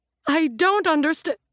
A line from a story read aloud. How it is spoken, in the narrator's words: the agent gasps